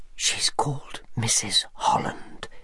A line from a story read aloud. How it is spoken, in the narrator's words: whispered